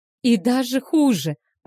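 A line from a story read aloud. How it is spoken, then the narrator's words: Moaning. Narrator (Russian): простонала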